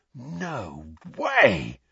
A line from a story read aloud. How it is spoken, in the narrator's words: said George in a hushed voice